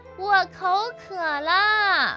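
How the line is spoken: Calling out. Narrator (Chinese): 他喊道

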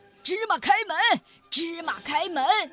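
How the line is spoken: Robbers shouting. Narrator (Chinese): 强盗们大喊

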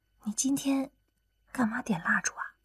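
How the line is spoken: Quiet question. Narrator (Chinese): 刘亚楠小声问了一句

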